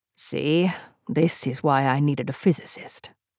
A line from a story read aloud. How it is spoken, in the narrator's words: Griffith coughed, then grumbled